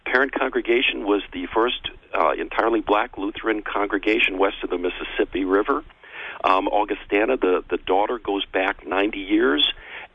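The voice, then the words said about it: Northern US accent, non-local. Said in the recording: “You can tell by my accent I'm not a native. I actually grew up in northern Illinois”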